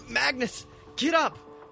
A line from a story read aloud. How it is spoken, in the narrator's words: Brenna cries